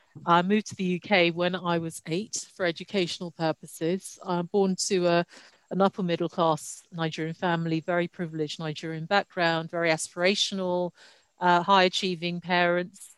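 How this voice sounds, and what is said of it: British-sounding accent. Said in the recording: “Most people who meet me for the first time assume I was born in the UK because of my accent.”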